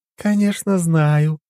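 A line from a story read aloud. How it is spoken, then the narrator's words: Cooing woman. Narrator (Russian): проворковала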